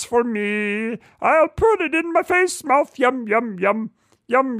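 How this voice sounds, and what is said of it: A silly put-on funny voice. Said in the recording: “That was just you doing a funny voice.”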